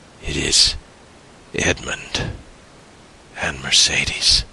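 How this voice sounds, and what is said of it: Low, quiet voice. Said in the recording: “was the reply in a low voice.”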